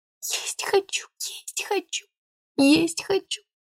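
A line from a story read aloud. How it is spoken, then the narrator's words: Whisper. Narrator (Russian): шептала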